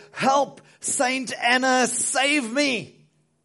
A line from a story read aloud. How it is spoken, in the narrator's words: terrified for his life, he shouted out